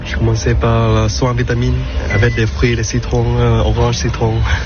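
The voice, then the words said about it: French with a delightful foreign accent. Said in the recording (French): “ce délicieux accent du masseur”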